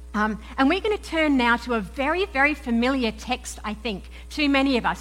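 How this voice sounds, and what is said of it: Mixed Australian and English accent. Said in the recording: “you will have gathered I am not from around here... where's that accent from... I'm an Aussie... my funny accent, folks. It's this weird mix and mingling of Aussie and English.”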